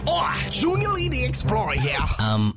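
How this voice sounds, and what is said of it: Put-on character accent, not convincing. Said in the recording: “The accent is talking good at all.”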